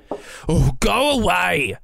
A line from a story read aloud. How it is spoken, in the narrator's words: Marvin shouted